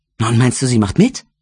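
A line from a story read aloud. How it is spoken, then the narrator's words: Excited question. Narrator (German): fragte sie aufgeregt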